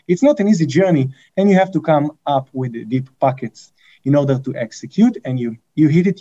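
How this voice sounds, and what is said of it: Heavy Israeli accent. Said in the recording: “you can hear by my accent, right? It's a very heavy one. You can't miss it. I'm an Israeli.”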